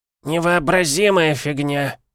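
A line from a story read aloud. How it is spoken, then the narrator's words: Loud creaky voice. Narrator (Russian): громко проскрипел чей-то голос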